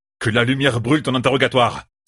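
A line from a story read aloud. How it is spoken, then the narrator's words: Exclaimed. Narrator (French): s'écria Kaldin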